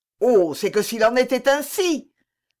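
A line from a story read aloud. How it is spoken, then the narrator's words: Forceful exclamation. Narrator (French): s'écria Louis avec une force singulière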